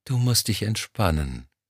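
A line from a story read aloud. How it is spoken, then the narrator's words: Soft cooing. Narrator (German): säuselte sie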